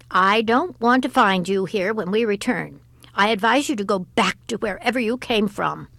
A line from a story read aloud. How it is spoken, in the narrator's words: said sharply